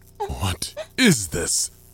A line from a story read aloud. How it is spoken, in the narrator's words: He exclaimed